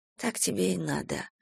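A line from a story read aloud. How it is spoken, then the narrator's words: Whisper. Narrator (Russian): прошептала Надежда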